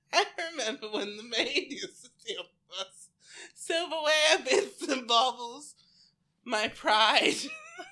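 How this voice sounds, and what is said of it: Put-on mid-Atlantic woman's voice. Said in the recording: “talking like a mid-Atlantic 35-year-old woman”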